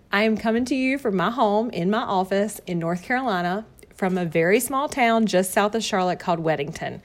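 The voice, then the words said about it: Strong Southern American accent. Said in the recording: “my Southern accent may be so strong that you may not be able to understand some of the words”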